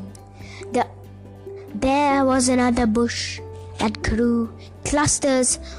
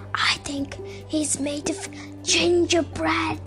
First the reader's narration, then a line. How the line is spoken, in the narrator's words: whispered Joe to the others